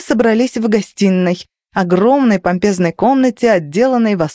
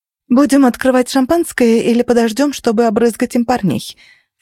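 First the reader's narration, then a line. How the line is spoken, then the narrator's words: Plain. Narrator (Russian): спросила Денис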